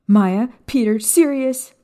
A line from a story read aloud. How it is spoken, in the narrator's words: Lily screamed for them